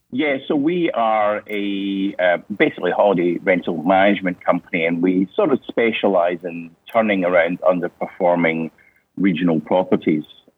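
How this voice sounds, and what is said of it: Scottish accent. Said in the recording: “people say I sound Australian ... people say I sound Scottish ... I think I still sound fairly Scottish, having been here for 19 years, so it hasn't gone away yet”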